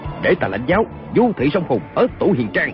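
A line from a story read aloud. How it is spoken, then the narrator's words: Shout. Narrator (Vietnamese): Kiều Phong quát lên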